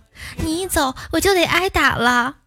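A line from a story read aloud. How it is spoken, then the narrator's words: Crying child. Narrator (Chinese): 哭着说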